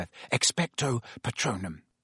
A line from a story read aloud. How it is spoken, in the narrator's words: Harry repeated under his breath